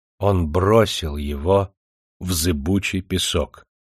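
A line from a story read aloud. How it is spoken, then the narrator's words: Calm, unshakable, barely moving lips. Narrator (Russian): сказала она спокойно, с какой-то несокрушимой непререкаемостью, только едва шевеля губами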